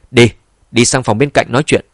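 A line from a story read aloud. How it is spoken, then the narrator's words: Loud interested laugh. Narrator (Vietnamese): Mục Đông Phong rất hứng thú, bèn cười lớn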